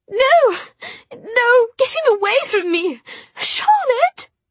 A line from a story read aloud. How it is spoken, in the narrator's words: Her voice rose to a terrible wailing scream that seemed to go on and on